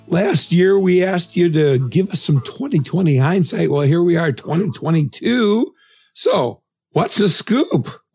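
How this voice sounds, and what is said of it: Sick, under-the-weather voice. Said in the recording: “we are facing yet another COVID variant, as you can maybe hear in my voice.”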